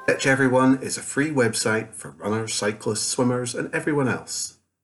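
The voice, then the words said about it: Scottish accent. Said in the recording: “it's that kind of Scottish slash... You detected a Scottish accent there, did you?... Mainly... maybe some Germanic influences in the background”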